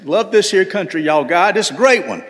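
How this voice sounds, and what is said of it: Put-on Southern accent. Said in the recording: “putting on my best Southern accent”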